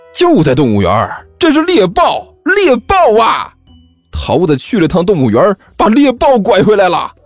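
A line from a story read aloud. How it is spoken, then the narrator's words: Loud clamor. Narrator (Chinese): 甘球在一边大声嚷道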